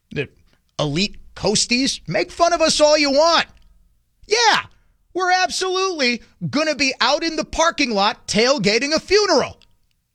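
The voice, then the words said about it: Up north Midwestern accent. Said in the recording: “we kind of talk with a very up north accent”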